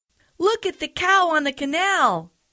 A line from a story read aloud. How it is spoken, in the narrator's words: they cried